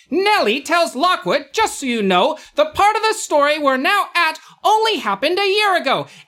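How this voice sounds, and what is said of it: Generic 1940s newsreel announcer voice. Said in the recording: “I'm going to try my 1940s, generic 1940s announcer voice”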